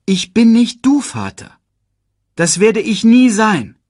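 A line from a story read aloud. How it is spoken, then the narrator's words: Loud sigh. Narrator (German): seufzte er laut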